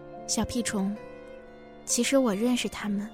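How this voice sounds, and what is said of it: Soft, whispered voice. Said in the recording (Chinese): “在我耳边小声地说”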